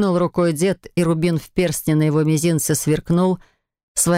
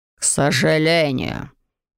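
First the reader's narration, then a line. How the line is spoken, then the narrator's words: Mumbled. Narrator (Russian): буркнул герцог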